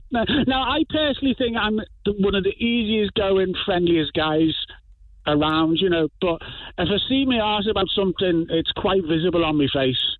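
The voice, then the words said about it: Liverpool accent. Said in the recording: “we have a Liverpudlian”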